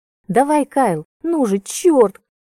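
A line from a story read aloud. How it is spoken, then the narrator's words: Excited squeal. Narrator (Russian): Каждый раз визжала Кейти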